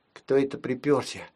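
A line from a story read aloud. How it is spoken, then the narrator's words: Little sister whispering. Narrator (Russian): прошептала сестричка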